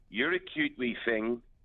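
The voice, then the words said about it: Belfast accent impression of a woman. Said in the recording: “I just love the accent.”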